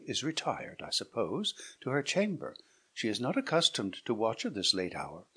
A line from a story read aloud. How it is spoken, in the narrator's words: said Hippolyta calmly